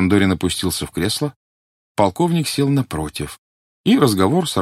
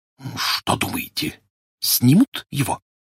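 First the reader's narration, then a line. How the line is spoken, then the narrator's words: Terrible whisper. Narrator (Russian): понизив голос до страшного шепота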